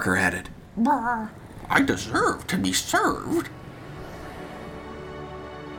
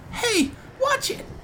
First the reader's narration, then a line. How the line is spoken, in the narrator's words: Jen chirped